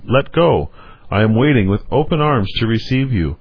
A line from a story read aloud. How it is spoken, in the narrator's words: that deliverer who cries to them